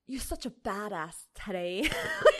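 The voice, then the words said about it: Unconvincing attempted British accent. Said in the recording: “I don't know what accent that was, but it was not British.”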